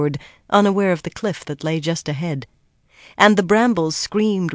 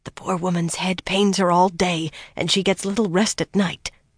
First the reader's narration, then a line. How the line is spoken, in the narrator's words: Halima whispered fiercely